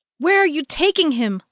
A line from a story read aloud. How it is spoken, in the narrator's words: Lulu screamed